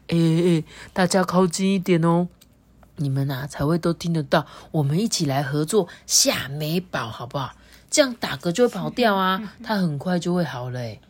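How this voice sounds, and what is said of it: Whispering storyteller voice. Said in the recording (Chinese): “小声的说”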